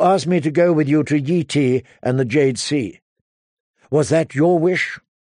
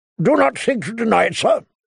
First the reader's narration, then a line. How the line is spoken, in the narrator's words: Sir Barristan said sharply